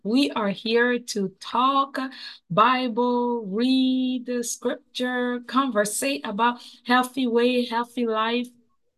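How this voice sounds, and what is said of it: Strained, not fully recovered voice. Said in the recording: “As you can tell, my voice has not healed completely yet”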